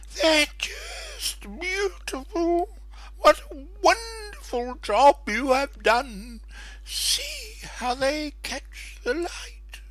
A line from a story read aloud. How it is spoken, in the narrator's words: she exclaimed